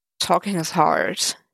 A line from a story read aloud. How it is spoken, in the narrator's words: he muttered